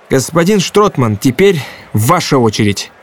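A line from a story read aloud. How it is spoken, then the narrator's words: Cheerful. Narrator (Russian): весело произнес Антон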